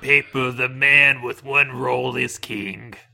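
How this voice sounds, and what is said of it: Old man voice. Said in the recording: “That's just what old people sound like. ... It's my old man voice.”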